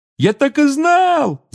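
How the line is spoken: Yelling. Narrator (Russian): завопил Рон

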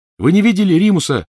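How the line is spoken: Shouted after someone. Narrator (Russian): крикнула ему вслед Тонкс

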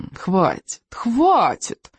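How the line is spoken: Soothing purr. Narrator (Russian): Умиротворяюще промурлыкал он

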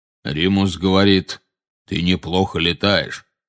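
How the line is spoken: Deep bass. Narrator (Russian): вставил Кингсли бруствер густым басом

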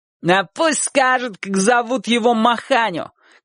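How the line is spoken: Boy shouting. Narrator (Russian): крикнул тот мальчик

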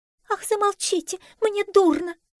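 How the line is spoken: Squeaking lapdog. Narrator (Russian): запищала болонка

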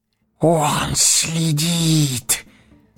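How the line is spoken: Hoarse wheeze. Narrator (Russian): просипел Горлум

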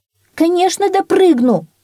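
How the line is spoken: Shout. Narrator (Russian): крикнула она

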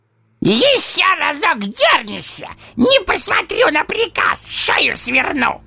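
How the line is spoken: Harsh bark. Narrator (Russian): рявкнул он

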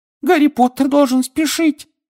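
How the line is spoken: Squeaky. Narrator (Russian): пискнул Добби

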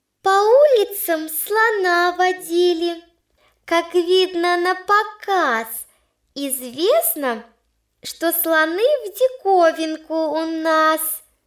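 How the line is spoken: Tiny high squeak. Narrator (Russian): пропищала она тоненьким-притоненьким голоском

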